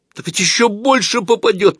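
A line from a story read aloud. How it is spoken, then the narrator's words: Nearly full-voiced cry. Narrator (Russian): почти во весь голос вскрикнул Клюквин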